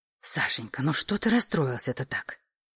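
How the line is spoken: Hissing. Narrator (Russian): зашипела его матушка

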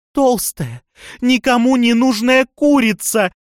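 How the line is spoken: Screaming. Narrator (Russian): завопила она

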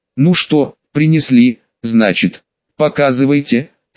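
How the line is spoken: Said calmly. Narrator (Russian): спокойно сказал хозяин

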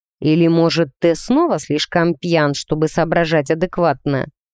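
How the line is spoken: Hissed through teeth. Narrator (Russian): процедил парень

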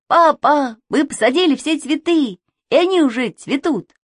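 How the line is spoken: Shout. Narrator (Russian): Саша закричал

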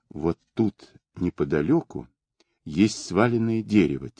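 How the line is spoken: Quiet repetition. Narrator (Russian): тихо повторил Сергей

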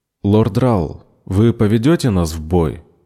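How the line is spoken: Plain. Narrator (Russian): спросил Бенджамин

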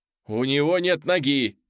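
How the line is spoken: Shout. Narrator (Russian): прокричал

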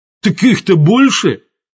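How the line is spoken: Exclaimed. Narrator (Russian): воскликнул Лас

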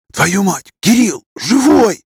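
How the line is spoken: Startled astonished whisper. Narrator (Russian): вздрогнув, но также шепотом изумился Макаров

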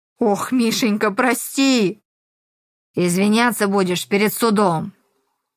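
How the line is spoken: Said through teeth. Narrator (Russian): Процедил Зорин

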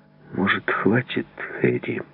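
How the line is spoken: Quiet. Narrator (Russian): тихо сказал он

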